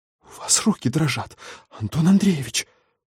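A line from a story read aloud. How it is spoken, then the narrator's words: Horrified whisper. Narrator (Russian): С ужасом прошептала старшая медсестра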